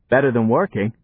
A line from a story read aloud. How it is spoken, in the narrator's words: said Johnny